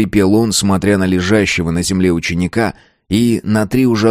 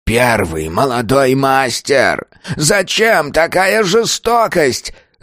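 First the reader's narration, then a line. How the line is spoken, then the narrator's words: Disbelieving anguished shout. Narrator (Russian): закричал он, не в силах поверить, что такое мог сотворить с его воспитанником кровный брат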